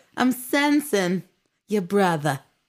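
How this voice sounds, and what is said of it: Imitates another person's voice. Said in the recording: “I do an impression of her”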